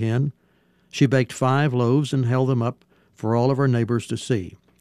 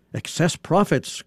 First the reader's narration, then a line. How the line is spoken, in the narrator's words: cried the cow